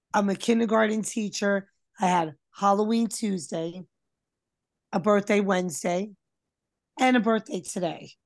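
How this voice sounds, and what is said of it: Hoarse, nearly lost voice. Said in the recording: “apologize for my voice... I just realized I had no voice”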